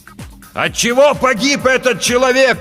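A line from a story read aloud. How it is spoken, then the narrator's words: Shouting. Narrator (Russian): прокричал капитан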